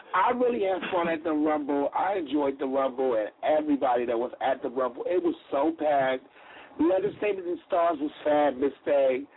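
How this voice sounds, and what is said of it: Strained, worn-out voice. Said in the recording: “Made me lose my voice ... that's why I lost my voice.”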